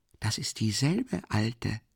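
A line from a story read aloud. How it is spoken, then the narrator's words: Continued whispering. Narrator (German): fuhr Raskolnikow ebenso flüsternd fort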